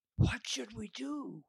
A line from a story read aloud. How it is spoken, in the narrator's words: William whispered